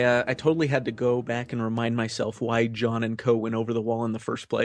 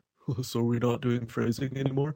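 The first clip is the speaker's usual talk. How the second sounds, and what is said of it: Imitates a cartoon character's voice. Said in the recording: “great archer impression”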